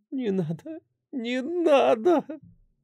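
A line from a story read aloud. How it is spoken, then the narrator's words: Sobbing mutter. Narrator (Russian): Бормотала она сквозь сбивающее дыхание рыдания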